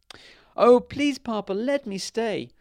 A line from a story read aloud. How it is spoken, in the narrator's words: cried